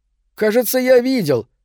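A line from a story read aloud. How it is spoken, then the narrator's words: Shouting. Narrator (Russian): крикнул Морелли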